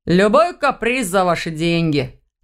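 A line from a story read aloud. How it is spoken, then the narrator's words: Laughing. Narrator (Russian): рассмеялся Ваня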